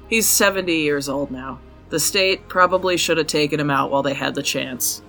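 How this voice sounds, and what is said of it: Thick American Utah accent. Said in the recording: “my super thick American accent... my Utah accent is too thick”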